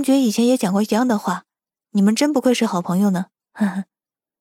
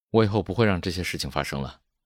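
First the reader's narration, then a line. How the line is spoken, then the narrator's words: Hesitant, flat. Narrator (Chinese): 江磊的眼神闪过犹豫，最后只是淡淡的说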